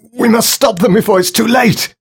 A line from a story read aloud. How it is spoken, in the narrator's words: He screamed from the darkness